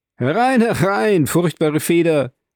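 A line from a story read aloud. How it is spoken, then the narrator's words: Called out. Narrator (German): rief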